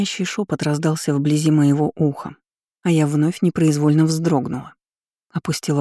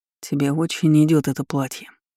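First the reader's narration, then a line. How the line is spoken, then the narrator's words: Low voice. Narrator (Russian): низким голосом произнес Артём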